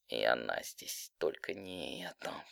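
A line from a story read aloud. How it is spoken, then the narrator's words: Through clenched teeth. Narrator (Russian): процедила, стиснув зубы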